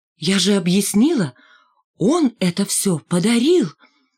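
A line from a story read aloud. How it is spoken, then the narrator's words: Joyful. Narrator (Russian): вновь радостно сказала Маргарита Ивановна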